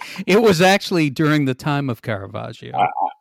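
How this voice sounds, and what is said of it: Usual voice. Nothing is said of it.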